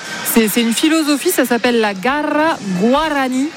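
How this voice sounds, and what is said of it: Exaggerated rolled-R Spanish pronunciation. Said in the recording (French): “Oh, quel accent. ... il y a deux R, j'ai bien. ... J'ai bien souligné les deux R.”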